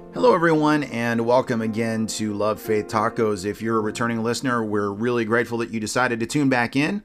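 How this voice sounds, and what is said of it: Congested, stuffy-sounding voice. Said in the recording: “as you can hear from my voice, I'm struggling with allergies”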